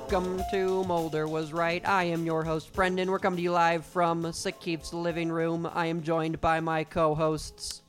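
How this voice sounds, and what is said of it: Crappy 1920s announcer voice. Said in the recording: “my really crappy 1920s announcer voice”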